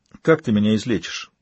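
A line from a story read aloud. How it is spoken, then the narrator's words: Quiet question. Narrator (Russian): негромко спросил Слоун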